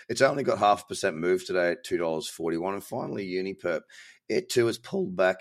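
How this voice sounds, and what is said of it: Weird, tired-sounding voice. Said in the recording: “Apologies for my weird voice. ... I am completely shattered.”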